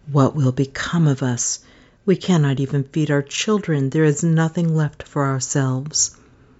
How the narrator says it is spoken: he sighed heavily and said to his wife

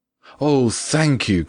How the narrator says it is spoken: cried out the father, as if he were the one playing the violin

